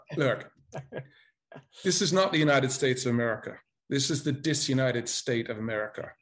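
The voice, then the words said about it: Speaks with a noticeable accent. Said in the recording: “Your accent tells me something before you speak”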